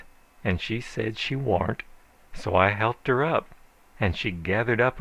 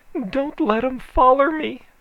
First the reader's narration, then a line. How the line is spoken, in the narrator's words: she begged